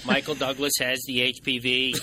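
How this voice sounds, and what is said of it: Put-on Kennedy-style Boston accent. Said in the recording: “That sounded more like Joe Pesci. ... That was sort of a Kennedy accent thrown in there, too.”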